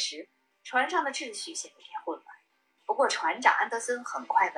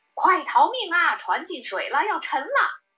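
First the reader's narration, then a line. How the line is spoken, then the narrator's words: Panicked shouting. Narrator (Chinese): 底舱管理员突然冲上甲板，大声叫嚷道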